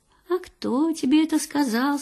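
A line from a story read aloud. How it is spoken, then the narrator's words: Gentle, queenly. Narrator (Russian): спрашивает ласково королева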